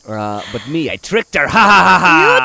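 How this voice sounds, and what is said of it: Insult comic dog character voice. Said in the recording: “I don't know what that accent is... I feel like it's a Triumph the Wonder Dog or whatever... Insult comic dog.”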